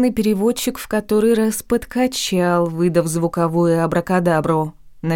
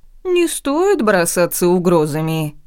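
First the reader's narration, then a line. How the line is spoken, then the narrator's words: Calm reply. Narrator (Russian): по-прежнему спокойно отозвался блондин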